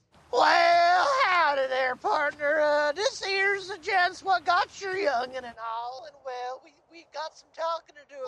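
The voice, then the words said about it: Exaggerated old-prospector Southern accent. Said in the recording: “Just do a southern accent ... Southern. Yeah. I got southern ... Southern, not old prospector.”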